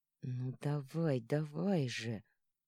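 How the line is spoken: Whisper. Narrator (Russian): прошептал

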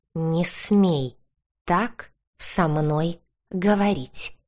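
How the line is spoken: Cat hissing, pausing between words. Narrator (Russian): делая паузы между словами, прошипел кот

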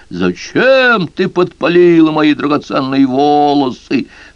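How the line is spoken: Woman shouting. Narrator (Russian): Ведьма закричала

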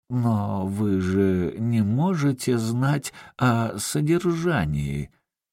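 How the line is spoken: Wary mutter. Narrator (Russian): он опасливо пробормотал

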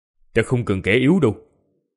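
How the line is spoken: Icy cold speech. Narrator (Vietnamese): Vương Lâm thần sắc lạnh lùng, lạnh như băng, nói

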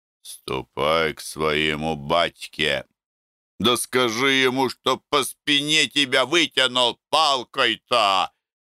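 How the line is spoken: Laughing speech. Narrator (Russian): смеялся Акулка

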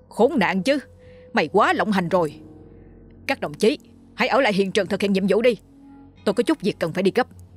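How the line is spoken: Furious roar. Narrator (Vietnamese): Thiếu tá Quyền gầm lên

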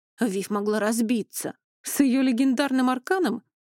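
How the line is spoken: Skeptical grunt. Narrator (Russian): хмыкнул Эней

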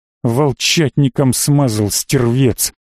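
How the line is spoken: Angry growl. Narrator (Russian): зло прорычал казак

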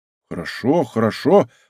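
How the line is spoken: Surprised, admiring mumble. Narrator (Russian): пробормотал Блезуа, еще более удивленный и восхищенный

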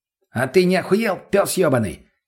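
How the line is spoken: Barked retort. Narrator (Russian): рявкнул в ответ мутный

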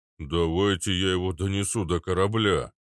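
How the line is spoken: Deep bass voice. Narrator (Russian): пробасил Арнольд

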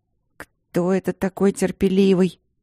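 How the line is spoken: Mutter. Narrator (Russian): бурчала я

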